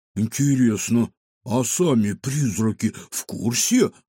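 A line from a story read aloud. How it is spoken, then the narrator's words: Muttered. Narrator (Russian): буркнул Кефир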